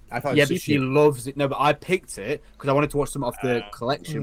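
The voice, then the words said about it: UK accent. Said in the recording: “you have that nice UK accent”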